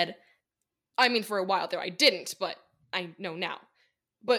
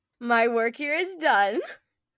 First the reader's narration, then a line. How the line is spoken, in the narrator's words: Nora called out